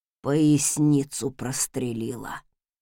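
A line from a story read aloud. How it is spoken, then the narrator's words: Strained gasp of pain. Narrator (Russian): Зеленея на глазах, сдавленно выдохнул дворецкий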